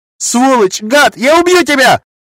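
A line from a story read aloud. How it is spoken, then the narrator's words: Shouting, cracking voice. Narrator (Russian): закричали от двери срывающимся голосом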